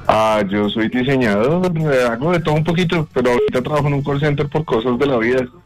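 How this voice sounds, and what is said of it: Radio announcer-like voice. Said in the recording (Spanish): “¿Le han dicho que tiene voz de locutor? ... sí, me lo han dicho.”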